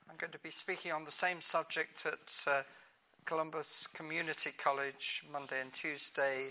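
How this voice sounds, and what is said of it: British accent. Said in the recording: “If you can't understand my accent, that's your fault, not mine ... We put our light switches down for on, and of course we drive on the wrong side of the road ... we put stuff in the boot, not in the trunk”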